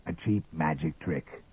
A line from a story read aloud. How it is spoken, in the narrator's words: muttered Father Stone